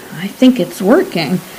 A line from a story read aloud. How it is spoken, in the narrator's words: Colgan cleared his throat nervously and murmured